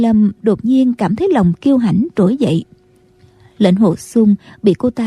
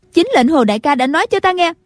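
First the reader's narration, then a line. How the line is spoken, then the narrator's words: Loud. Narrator (Vietnamese): Cô lớn tiếng nói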